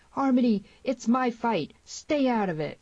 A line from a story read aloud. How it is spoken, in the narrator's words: the scream of the girl